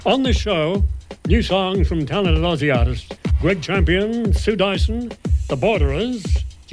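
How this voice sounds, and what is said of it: Broad Australian accent. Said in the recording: “Australian English in my colic accent”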